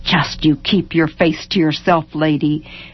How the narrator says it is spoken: Maisie muttered furiously in her head

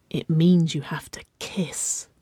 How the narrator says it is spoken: Wynona whispered

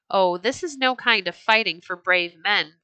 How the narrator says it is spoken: Thorfinn cried angrily

